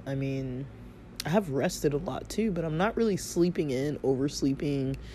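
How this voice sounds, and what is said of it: Sick-sounding voice. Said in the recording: “I still have symptoms, as you can hear in my voice.”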